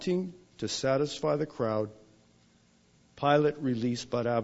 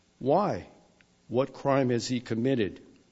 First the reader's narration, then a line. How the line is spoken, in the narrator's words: asked Pilate